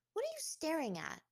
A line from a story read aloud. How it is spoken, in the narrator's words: snapped